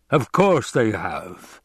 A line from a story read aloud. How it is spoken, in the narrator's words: the Baron rumbled